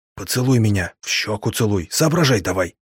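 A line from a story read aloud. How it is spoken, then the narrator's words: Whispered. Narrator (Russian): я прошептал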